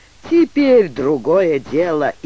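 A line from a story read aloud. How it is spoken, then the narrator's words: Sighing. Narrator (Russian): вздохнула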